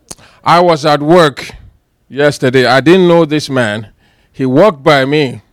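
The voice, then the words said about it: Ghanaian accent. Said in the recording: “he recognized my accent ... Are you from Nigeria? And I said, no, I am from Ghana.”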